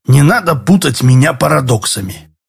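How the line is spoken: Sharp reply. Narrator (Russian): резко ответил Седой

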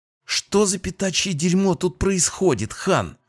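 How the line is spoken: Angry hiss. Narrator (Russian): Зло прошипела Кэтрин

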